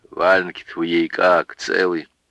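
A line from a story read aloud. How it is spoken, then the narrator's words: Muffled question. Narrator (Russian): Брат глухо спросил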